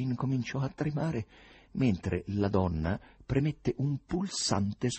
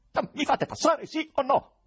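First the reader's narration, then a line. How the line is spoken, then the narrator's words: Terrible yell. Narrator (Italian): urlò il poeta con voce terribile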